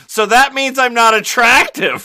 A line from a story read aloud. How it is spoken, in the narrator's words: she blurted out